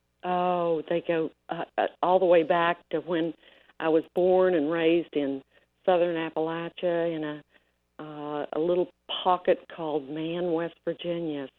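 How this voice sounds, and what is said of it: Appalachian mountain twang, slight Southern drawl. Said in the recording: “you've got a little bit of an accent going on there ... I got that mountain twang ... I've got a little bit of a southern drawl”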